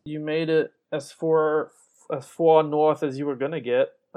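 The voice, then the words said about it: Put-on New York accent. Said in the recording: “Apparently I'm speaking in New York accent now.”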